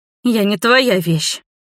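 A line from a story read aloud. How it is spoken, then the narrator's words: Spat through teeth, contempt. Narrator (Russian): процедила в ответ мерзкому жениху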